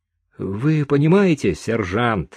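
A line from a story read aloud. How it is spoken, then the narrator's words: Sighing. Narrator (Russian): и тут Чика вздохнул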